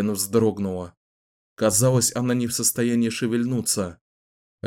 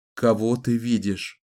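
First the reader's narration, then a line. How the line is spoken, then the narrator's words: Plain question. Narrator (Russian): снова спросил он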